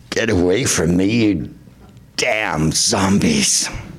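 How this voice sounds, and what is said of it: Imitates another person's voice. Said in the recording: “my impression of Charlton Heston in The Omega Man”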